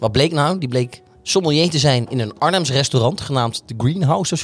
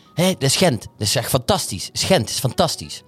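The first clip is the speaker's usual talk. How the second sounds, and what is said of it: Bad imitation of Flemish accent. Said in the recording (Dutch): “Ik heb de slechtste Vlaams accent ooit.”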